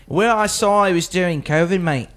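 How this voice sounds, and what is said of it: Put-on Australian accent. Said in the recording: “I got three Australians in front of me”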